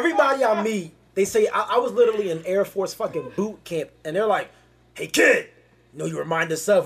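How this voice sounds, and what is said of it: Usual voice. Nothing is said of it.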